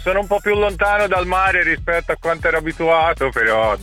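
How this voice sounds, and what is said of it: Tuscan Italian accent. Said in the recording (Italian): “Hai mantenuto l'accento toscano ... si sente”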